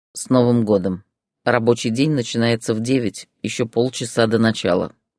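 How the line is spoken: Grumbling. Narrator (Russian): проворчал он

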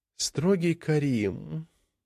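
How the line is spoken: Dreamy drawn-out voice. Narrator (Russian): мечтательно протянула Алина

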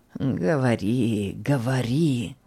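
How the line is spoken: Old man, strange voice. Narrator (Russian): Вдруг вслух произнес старик странным голосом

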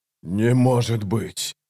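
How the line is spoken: Breathless exhale. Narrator (Russian): выдохнул Ягут

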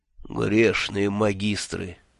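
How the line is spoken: Despairing moan. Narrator (Russian): с отчаянием простонал Мелифаро

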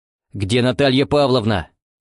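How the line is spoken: Barked. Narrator (Russian): рявкнул он

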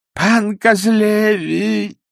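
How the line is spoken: Group moaning. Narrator (Russian): застонали ксензы

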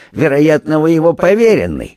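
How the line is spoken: Mocking question. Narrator (Russian): насмешливо спросил пристав

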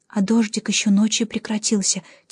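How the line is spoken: Quiet. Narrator (Russian): тихонько сказала я Давину

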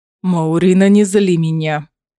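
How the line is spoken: Growled. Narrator (Russian): прорычал Ларкан

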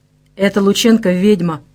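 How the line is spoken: Dull, muffled. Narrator (Russian): сказал он глухо

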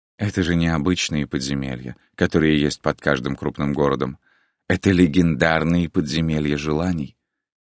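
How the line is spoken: Sigh. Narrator (Russian): Григор вздохнул

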